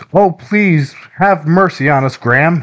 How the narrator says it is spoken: he cried out

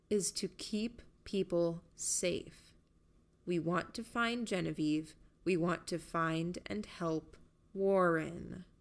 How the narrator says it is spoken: I said, talking more slowly

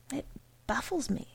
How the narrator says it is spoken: said Mr

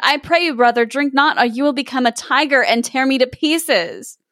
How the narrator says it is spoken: the sister exclaimed

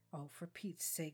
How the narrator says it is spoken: she muttered, careful not to wake the boys

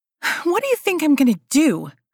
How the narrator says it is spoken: snapped

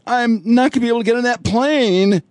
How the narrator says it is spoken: she whines on the video

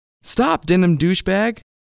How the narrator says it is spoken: Kim yelled

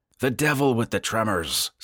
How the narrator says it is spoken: said Travis impatiently

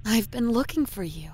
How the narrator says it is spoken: she says in a soothing voice, almost sweet

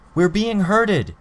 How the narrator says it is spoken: I called out

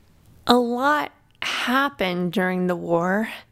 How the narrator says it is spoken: Connor said slowly, as if not completely convinced at her explanation

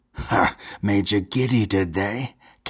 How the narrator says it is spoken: cackled Count Gerald, suddenly abandoning his arrogant pose

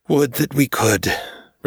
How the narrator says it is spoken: Recludius sighed

